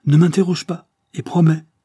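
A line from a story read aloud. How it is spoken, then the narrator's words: Exclaiming. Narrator (French): s'écria-t-il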